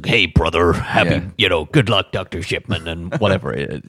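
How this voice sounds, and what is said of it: Hulk Hogan impression. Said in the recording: “That wasn't a bad impersonation.”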